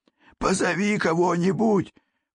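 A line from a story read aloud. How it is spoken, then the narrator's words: Hoarse rasp. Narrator (Russian): прохрипел он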